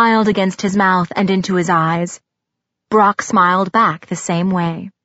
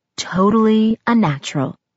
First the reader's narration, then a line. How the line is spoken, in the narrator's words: his lips moved against mine when he whispered